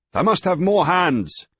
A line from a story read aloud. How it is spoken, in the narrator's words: the sailing master shouted almost into Griffith's ear